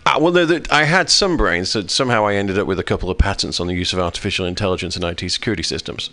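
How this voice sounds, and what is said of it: Speaks with a noticeable accent. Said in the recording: “I pretty much trade on the accent.”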